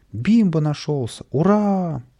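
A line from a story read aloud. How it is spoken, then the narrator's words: Joyful crowd shouting. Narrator (Russian): В толпе радостно закричали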